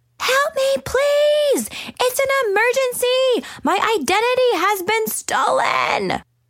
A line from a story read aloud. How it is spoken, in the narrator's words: scream